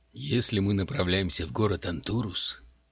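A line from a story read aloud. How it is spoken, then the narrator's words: Calm, reasoned, menacing. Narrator (Russian): спросил Калам Маланик таким спокойным и рассудительным тоном, который прозвучал гораздо более угрожающе, чем крик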